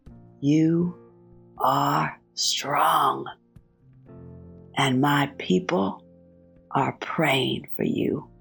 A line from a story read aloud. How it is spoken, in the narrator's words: Like that small, elderly maintenance woman whispered to me